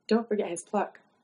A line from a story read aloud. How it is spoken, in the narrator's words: whispered